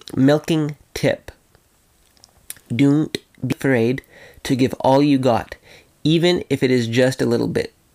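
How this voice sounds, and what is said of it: Funny put-on accent. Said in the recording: “I kind of said that in a funny accent there”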